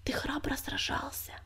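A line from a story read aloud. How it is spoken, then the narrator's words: Soft whisper. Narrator (Russian): тихонько шепнула она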